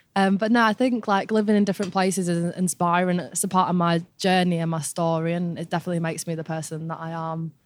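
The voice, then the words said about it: Northern English accent. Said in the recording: “I'm definitely a northerner. It's still in me. My accent's going a little bit, but I'm holding on to it.”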